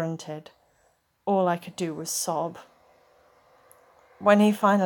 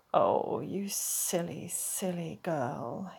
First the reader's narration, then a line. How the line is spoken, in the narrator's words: he murmured